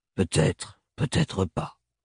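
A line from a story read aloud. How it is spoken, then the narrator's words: Grumbling between pipe puffs. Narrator (French): grogna Thorn entre deux bouffées de pipe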